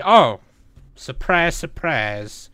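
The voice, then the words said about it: Put-on accent. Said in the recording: “That's why I said it in an accent.”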